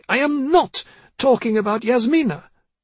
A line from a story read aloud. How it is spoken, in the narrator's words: she snapped